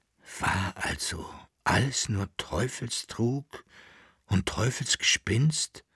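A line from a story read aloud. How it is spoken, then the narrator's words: Whispered with deep sigh. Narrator (German): flüsterte der Kaiser mit einem tiefen Aufseufzen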